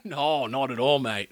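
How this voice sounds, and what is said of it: Put-on Australian accent impression. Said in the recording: “You got all Australian for that one ... your Hugh Jackman impression.”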